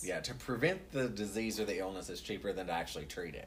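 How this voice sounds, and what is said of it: Southern US accent. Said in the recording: “is not from Indiana, if you could not tell by his accent. ... No, I'm from the South.”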